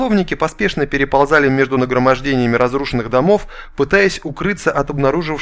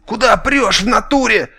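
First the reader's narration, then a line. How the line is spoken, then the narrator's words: Shouting. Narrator (Russian): кричал кто-то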